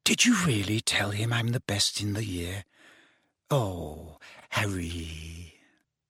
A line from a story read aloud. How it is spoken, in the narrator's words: Hermione, with a radiant face, whispered